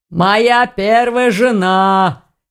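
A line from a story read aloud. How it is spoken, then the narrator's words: Hoarse laugh, man. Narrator (Russian): хрипло хохотнул мужчина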